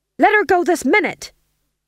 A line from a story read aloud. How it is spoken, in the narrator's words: he shouted